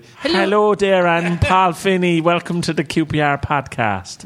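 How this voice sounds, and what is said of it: Bad imitation of a Cork Irish accent. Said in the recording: “that really bad Martin O'Neill accent you do ... That really bad Martin O'Leal accent you do ... Which if I was from Cork would be brilliant, but as I'm not.”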